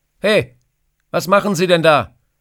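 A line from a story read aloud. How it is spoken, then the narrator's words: Burly man calling out. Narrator (German): ruft ein kräftiger Mann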